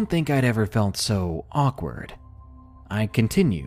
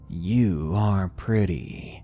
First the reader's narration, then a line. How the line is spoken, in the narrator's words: he said to me in a low and creepy voice